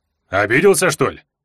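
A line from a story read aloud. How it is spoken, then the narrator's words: Snorting. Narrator (Russian): хмыкнул Варга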